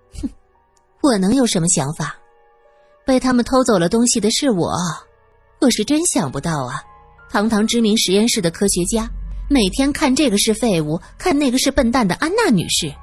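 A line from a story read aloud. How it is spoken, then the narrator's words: Sardonic half-smile. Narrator (Chinese): 苏三似笑非笑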